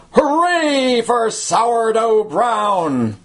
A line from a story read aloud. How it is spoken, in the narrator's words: With shouts, gave a rousing cheer